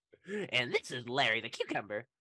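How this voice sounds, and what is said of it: Cartoon cucumber character voice. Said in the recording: “my Larry impression”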